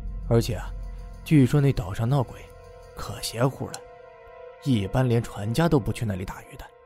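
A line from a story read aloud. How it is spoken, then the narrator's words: Slightly lowered voice. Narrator (Chinese): 他略微压低嗓音，又继续说道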